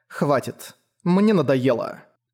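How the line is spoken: Cold. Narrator (Russian): холодно сказала Фрэмми

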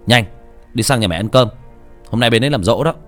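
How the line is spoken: Condescending snapping. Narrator (Vietnamese): Hắn liên tục dùng giọng kẻ cả, gắt lên

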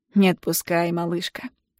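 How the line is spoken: Quiet smirking. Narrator (Russian): тихо усмехается он

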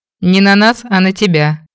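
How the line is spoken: Remark with a chuckle. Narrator (Russian): отметил Стин, хохотнув

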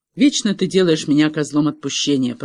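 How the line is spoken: Grumbling. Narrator (Russian): проворчала Тиффани

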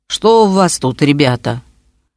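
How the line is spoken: Hoarse bass question. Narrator (Russian): он спросил сиплым басом

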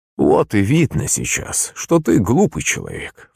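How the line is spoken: Sighing priest. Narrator (Russian): вздохнул отец Христофор

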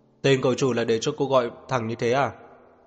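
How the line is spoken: Haughty raised voice. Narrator (Vietnamese): Ông ta hất cằm cao giọng nói

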